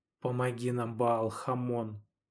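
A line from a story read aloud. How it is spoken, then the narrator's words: Quiet, through gritted teeth. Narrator (Russian): тихо процедил Федор сквозь зубы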